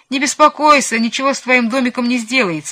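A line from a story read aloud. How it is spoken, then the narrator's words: Laughing. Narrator (Russian): засмеялся Чиполлино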